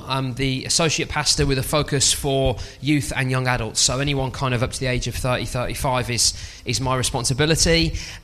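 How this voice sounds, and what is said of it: Mild Birmingham English accent. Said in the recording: “I have a little bit of an accent, and I'm from Birmingham, and I hope it's not too strong though.”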